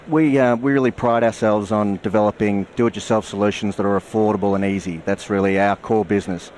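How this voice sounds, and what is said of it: Australian accent. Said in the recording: “I'm from Australia, so I hope you can understand my Australian accent.”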